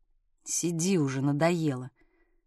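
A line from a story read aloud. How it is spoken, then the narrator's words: Gruff unpleasant male mutter. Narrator (Russian): Процедил мужской, неприятный, грубый такой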